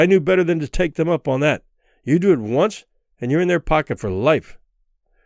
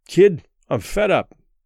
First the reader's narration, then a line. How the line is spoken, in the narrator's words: he said